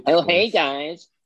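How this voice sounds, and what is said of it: Exaggerated camp voice. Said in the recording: “in a completely different voice ... Go really camp ... Do a little Louis Spence”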